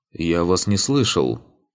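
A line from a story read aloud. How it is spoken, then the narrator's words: Displeased grumble. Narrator (Russian): пробурчал Ригарди, недовольный, что его застали врасплох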